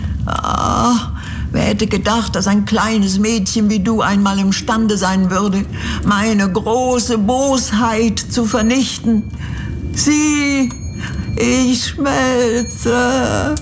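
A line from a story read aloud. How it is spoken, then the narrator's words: Whimpering in agony. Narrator (German): wimmerte die Hexe unter Qualen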